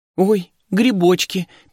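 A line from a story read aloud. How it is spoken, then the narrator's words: Girl's squeak. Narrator (Russian): пискнула девчонка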